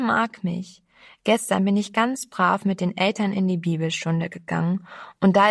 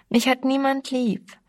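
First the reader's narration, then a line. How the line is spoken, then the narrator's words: Whining. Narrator (German): jammerte sie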